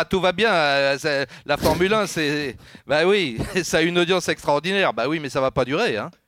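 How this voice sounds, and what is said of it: Imitated Italian accent, Domenicali impression. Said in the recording (French): “Tu sais que tu le fais de mieux en mieux, l'accent italien. ... Je te le fais pour Dominique.”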